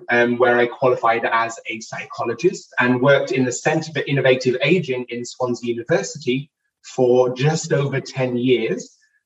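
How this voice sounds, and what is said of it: British accent. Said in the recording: “As you can hear from my accent, I am not from the United States. I'm originally from the United Kingdom”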